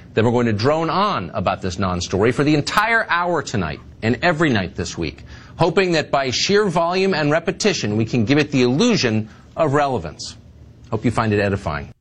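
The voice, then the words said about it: Sarcastic delivery. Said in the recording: “That was sarcasm ... That's some good sarcasm right there.”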